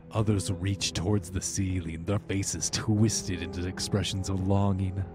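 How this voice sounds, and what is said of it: Dramatic narrator voice. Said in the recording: “Right when I'm in my narration. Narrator voice,”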